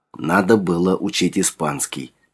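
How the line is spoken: Muttering in Russian. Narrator (Russian): пробормотала она по-русски

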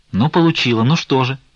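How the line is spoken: Sharp. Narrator (Russian): резко ответила Головщица

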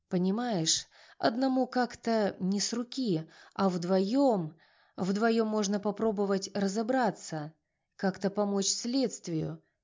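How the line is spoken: Uncertain. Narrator (Russian): неуверенно закончил он

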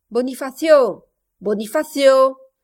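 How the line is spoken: Shouting. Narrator (French): cria le maître du logis

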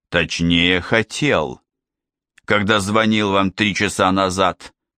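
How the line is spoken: Growled. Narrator (Russian): прорычал старший инспектор

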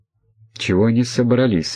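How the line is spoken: Frightened speech. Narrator (Russian): испуганно проговорил Андрей

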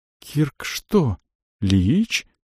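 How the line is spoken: Young mage, trembling voice. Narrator (Russian): дрогнувшим голосом спросил мажонок

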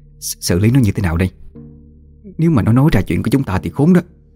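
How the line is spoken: Trembling fearful voice. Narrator (Vietnamese): Mụ Thủy vẫn chưa hết run rẩy

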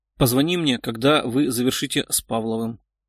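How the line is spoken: Quiet request. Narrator (Russian): тихо попросил Задорина Антон

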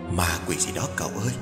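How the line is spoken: Soft, old woman. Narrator (Vietnamese): Một bà cụ liền khẽ bảo

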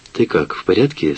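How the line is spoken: Plain. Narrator (Russian): спросила Крошка

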